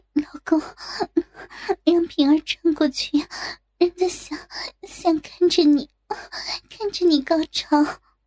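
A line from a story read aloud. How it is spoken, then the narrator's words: Trembling, tearful whisper. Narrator (Chinese): 陆平浑身哆嗦 他发出哭泣一样的声音小声说道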